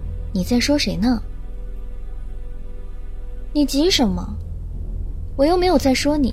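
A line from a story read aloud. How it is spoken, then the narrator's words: Cold, quiet question. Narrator (Chinese): 神音冷冷的小声问道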